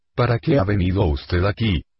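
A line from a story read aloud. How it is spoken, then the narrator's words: Warm, friendly question. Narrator (Spanish): preguntó con una voz cálida y amistosa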